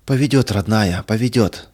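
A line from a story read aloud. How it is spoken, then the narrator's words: Mother exhaling the words. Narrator (Russian): выдохнула мать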